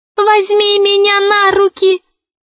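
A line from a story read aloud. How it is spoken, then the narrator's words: Squeaky talking ball. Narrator (Russian): пропищал мяч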